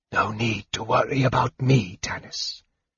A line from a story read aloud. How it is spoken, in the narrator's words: the mage whispered